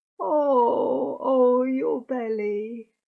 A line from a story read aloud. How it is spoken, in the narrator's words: groaned